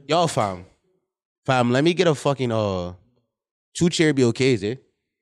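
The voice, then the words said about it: Put-on Toronto accent. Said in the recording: “I'm talking in Toronto accent”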